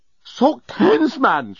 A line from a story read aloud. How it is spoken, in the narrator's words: shouted the journalist, who had suddenly realized what kind of scent Nettie was wearing